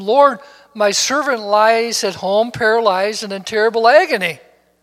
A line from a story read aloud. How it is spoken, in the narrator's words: a centurion pleaded with him